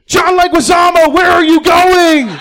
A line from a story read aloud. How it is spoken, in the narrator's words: Mario yells